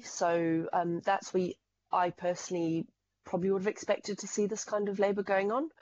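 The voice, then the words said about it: Zimbabwean accent. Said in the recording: “as you might be able to tell from the accent, I come from Zimbabwe.”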